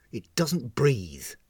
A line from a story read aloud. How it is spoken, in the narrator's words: snapped the captain